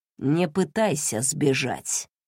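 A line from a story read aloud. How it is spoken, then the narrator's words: Low, muffled. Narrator (Russian): продолжал Кэнсин глухим голосом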